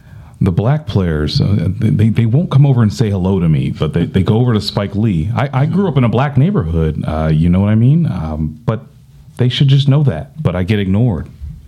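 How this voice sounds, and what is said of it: Howard Stern impression. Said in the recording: “I'm about to do a Howard Stern impression... Here comes my Howard Stern.”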